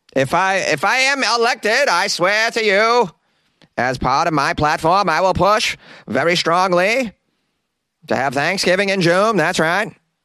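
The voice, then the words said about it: Imitates another person's voice. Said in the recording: “my Kennedy impression. It's pretty bad. I learned it from The Simpsons.”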